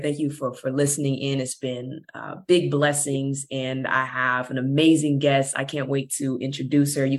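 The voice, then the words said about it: Slightly hoarse, strained voice. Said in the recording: “I went to Universal Studios and was screaming my butt off on the rides. And so my voice is a little gone.”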